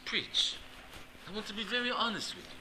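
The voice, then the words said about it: Put-on Russian accent. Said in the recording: “Max is a Russian... How about this accent, huh?”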